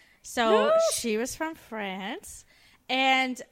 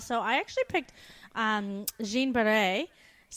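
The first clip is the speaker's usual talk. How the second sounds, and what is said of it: French accent on a name. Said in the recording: “I loved your French accent there”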